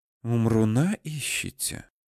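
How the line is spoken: Eerie whisper, girl. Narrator (Russian): страшным шепотом перевела девушка

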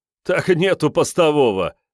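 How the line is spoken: Laughing. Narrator (Russian): хохотнул напарник пенсне

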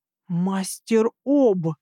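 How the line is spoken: Hissed in ear. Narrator (Russian): зашипела я ему на ухо

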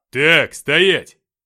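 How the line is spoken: Barked over radio. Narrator (Russian): рявкнула рация

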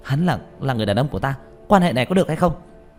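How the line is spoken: Furious shout. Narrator (Vietnamese): Tạ Vũ Tình tức giận đến khuôn mặt đỏ bừng, quát lên

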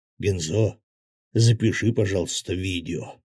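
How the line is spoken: Unusually quiet voice. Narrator (Russian): непривычно тихо проговорил Свят

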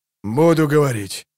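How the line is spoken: Hoarse rasp. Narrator (Russian): прохрипел он

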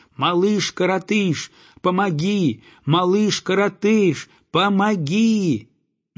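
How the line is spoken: Goose shouting with full force. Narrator (Russian): Гусак кричал что есть сил

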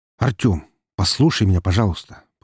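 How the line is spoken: Strained calm request. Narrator (Russian): попросил его Максим, стараясь, чтобы его голос звучал более или менее спокойно

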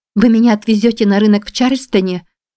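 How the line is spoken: Joyful exclamation. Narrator (Russian): радостно воскликнула Анна

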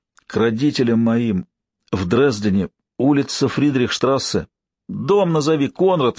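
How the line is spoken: Pleading. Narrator (Russian): взмолился Алексей

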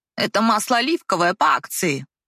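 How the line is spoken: Saleswoman grumbled. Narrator (Russian): проворчала продавец

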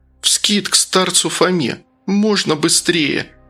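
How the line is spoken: Tearful pleading question. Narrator (Russian): плачущим голосом спросила Настя

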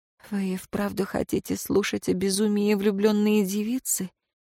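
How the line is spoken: Quiet question. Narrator (Russian): тихо спросила

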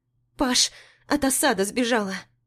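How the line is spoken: Excited rapid chatter in ear. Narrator (Russian): Иришка взволнованно тараторит мне в ухо

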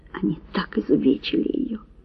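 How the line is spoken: Faint mumble, near fainting. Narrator (Russian): пробормотал, отчаянно пытаясь не соскользнуть в пучину беспамятства

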